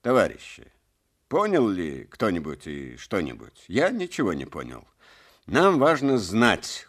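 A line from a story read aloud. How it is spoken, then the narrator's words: Angry clipped speech. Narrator (Russian): уже сердито отчеканивал секретарь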